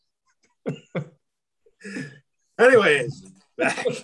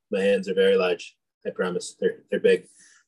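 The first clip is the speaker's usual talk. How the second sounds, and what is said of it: Donald Trump impression. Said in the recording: “my Trump impression of the day”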